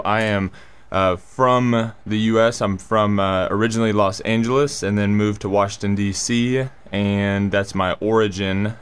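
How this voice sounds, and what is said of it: American accent. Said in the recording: “just a random American accent”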